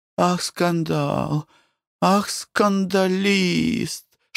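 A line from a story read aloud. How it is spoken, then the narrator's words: Whispered. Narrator (Russian): шептала она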